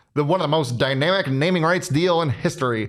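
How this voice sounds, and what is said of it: Put-on newscaster voice. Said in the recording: “why do you do your old person voice? ... That wasn't an old timey voice. ... That was my newscaster voice.”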